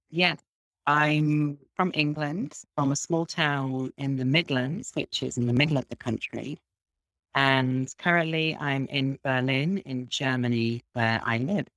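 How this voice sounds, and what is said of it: Slight English accent. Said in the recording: “you have a bit of an accent”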